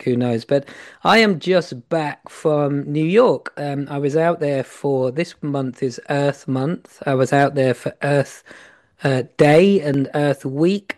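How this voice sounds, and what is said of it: Slightly hoarse, croaky voice. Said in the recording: “I've got a little bit of a frog in my throat”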